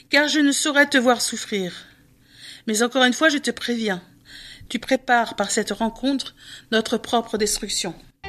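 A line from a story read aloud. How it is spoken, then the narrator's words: Sad male voice. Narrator (French): dit-il tristement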